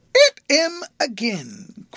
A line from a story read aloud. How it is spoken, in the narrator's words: cried the boy as the poor creature leaped and made a dint in his wool